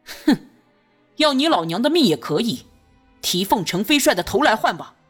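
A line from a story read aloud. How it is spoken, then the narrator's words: Cold sneering laugh. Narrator (Chinese): 朱瑜冷笑一声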